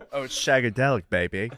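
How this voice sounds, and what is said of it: Austin Powers English accent impression. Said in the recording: “Pretty good English accent ... Austin Powers?”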